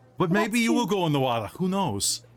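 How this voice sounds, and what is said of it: Unidentifiable put-on accent. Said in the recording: “I don't know what accent that was.”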